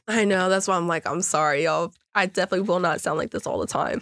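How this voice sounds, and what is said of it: Sick, unsteady voice. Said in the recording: “I'm sick. So my voice is like all over the place. ... when you're sick, you can hear it all”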